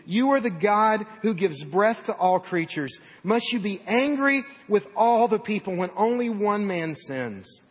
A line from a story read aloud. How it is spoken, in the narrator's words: pleaded